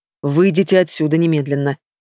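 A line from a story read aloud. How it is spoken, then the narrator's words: Steely commanding voice. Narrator (Russian): приказывает Ильин стальным голосом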